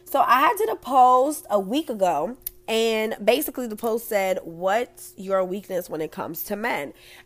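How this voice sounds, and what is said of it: Strained, rough-sounding voice. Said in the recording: “excuse my voice. ... I need to go get me some water, honey, because I sound crazy.”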